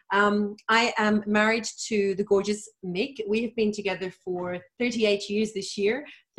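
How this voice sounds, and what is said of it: Mixed-up Irish accent. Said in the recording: “I was originally born and bred in Dublin, Ireland. My accent is very mixed up though. People kind of pick me for all different things”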